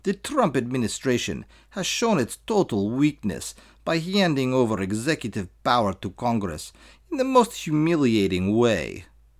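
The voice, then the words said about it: Put-on accent, admittedly poor. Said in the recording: “I'm so sorry, I know my accent's terrible”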